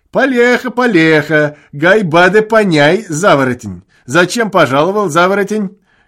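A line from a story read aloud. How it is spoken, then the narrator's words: Shouting through laughter. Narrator (Russian): кричал сквозь смех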